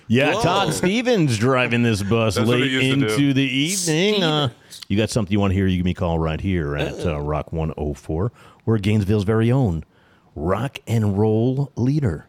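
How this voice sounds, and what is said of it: Radio DJ voice. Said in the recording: “here's my radio voice.”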